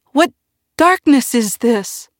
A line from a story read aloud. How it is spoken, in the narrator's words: the tree cried out in alarm, in what seemed to him like a great shout